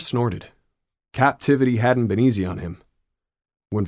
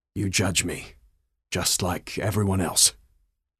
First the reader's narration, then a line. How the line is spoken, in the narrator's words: Var croaked